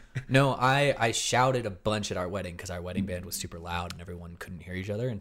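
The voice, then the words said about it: Hoarse voice. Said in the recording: “I'm kind of hoarse and have been for several days... my throat hurts a little bit just from being hoarse”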